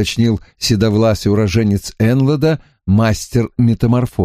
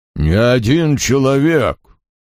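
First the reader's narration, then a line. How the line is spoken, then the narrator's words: Deep bass voice. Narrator (Russian): басом сказал мастер-заклинатель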